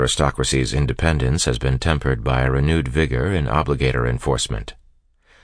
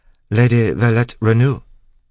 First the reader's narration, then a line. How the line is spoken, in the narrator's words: the tall man asked in a faintly accented voice